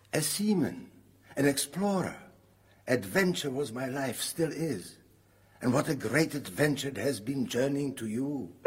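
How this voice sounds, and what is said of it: Foreign, Polish accent. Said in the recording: “You speak with a foreign accent. ... He was Polish, like me.”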